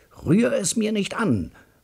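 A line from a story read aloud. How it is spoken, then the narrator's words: Roaring. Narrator (German): brüllt mein Bruder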